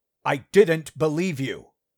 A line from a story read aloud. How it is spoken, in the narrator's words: Thomas all but shouted, losing his temper